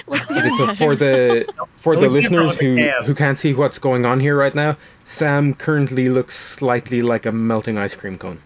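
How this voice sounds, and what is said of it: Irish-sounding accent. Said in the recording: “your Irish accent ... people in Ireland would very strongly disagree that I have an Irish accent”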